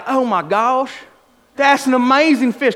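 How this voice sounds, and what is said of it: Imitated Southern American accent. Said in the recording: “literally sounds like this... he has like a southern accent, and he's from California”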